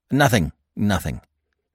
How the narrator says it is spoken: he said hastily

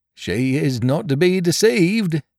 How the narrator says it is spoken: observed the carrier, laughing

